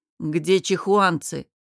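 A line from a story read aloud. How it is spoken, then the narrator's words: Menacing question. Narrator (Russian): грозно спросил Намир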